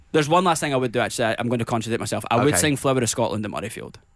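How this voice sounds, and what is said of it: British accent. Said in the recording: “either people are just completely confused by my accent ... a lot of people think that a British accent is Australian”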